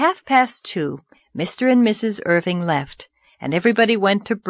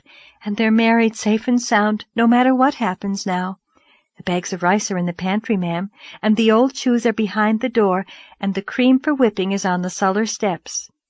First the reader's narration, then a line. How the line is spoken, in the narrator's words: breathed Charlotta the Fourth